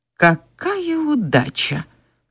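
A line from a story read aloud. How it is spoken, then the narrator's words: Quiet. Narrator (Russian): негромко произнес Ред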